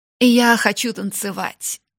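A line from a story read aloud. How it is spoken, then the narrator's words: Exclaiming. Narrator (Russian): воскликнула она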